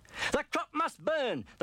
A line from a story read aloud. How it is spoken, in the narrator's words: the farmer cried